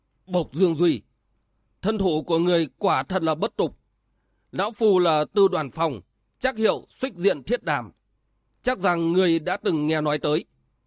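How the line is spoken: Cold reply, old man. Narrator (Vietnamese): Lão nhân mặt đỏ lạnh lùng đáp

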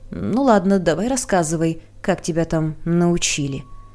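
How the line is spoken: Offended grumble. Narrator (Russian): Задетый инспектор проворчал

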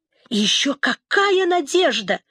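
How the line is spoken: Exclaimed. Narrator (Russian): воскликнул Вамба

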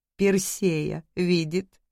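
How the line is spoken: Giggling. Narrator (Russian): хихикнула Мария

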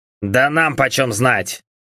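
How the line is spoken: Grumbled. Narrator (Russian): проворчал Джо

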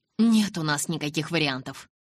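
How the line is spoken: Irritated declaration. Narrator (Russian): раздраженно заявил Эдвард

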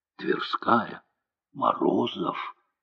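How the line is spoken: Whisper from behind. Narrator (Russian): шепот позади

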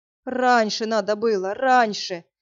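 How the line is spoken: Doctor groaning. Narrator (Russian): стонал доктор

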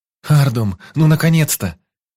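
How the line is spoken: Exclamation, baroness. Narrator (Russian): воскликнула баронесса

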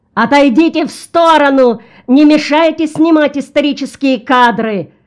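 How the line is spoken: Shrill shout. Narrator (Russian): оператор пронзительно закричал

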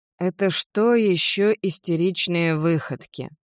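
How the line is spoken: Drawling. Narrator (Russian): протянул Джефф

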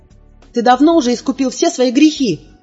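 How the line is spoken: Shouting. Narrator (Russian): кричала я

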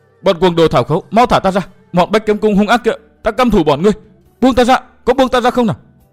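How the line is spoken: Screaming woman. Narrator (Vietnamese): nàng la hét

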